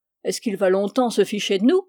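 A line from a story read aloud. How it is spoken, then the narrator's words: Half cheerful, half furious grumble. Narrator (French): grommela le capitaine d'un ton moitié gai, moitié furieux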